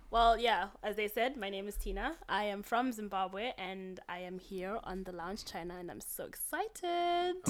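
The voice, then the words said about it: British-sounding accent. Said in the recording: “why do you have such a British accent”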